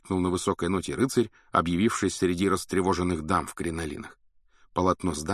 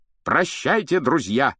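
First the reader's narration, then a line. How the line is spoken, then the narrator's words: Shouted. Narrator (Russian): крикнул рыцарь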